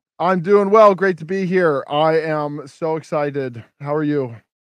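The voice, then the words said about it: Loud, yelling voice. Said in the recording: “Why are you yelling?”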